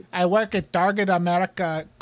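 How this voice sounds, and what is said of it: Put-on foreign accent. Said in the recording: “I slowly slipped into another fucking accent.”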